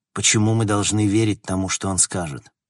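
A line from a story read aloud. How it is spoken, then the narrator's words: Plain. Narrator (Russian): спросил Логан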